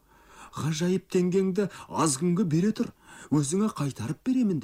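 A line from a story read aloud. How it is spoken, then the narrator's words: Pleading. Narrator (Kazakh): деп жалынды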